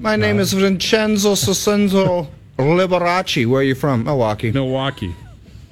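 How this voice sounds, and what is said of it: Exaggerated put-on accent. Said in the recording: “Puts on the full accent and then Milwaukee.”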